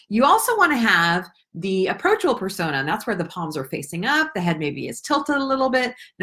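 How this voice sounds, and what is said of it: Rising, upward-curling intonation. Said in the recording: “Notice how my voice has changed. It's curling up now.”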